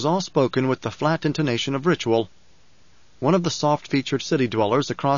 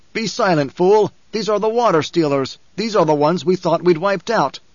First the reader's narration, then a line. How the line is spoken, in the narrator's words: a darker desert Fremen snapped